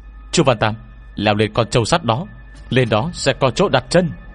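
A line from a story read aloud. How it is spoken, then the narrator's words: Startled urgent shout. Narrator (Vietnamese): Trong lòng tôi chợt chấn động, lập tức hét lên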